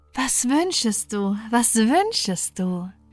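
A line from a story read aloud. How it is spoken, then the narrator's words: Called out. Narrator (German): rief sie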